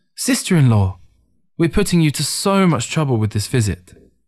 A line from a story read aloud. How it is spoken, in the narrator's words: Ting eagerly exclaimed